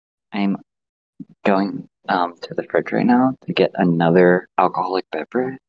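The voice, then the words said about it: Whispering. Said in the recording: “I'm sorry, I'm whispering.”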